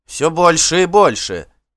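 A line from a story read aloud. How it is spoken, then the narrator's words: Angry shout. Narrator (Russian): гневно крикнула она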